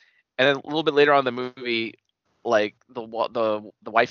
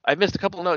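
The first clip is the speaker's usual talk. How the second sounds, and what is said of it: Put-on Russian accent. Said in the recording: “she has like a Russian accent sort of”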